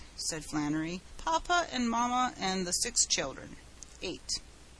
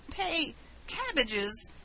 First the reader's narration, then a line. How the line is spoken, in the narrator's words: gasped Mr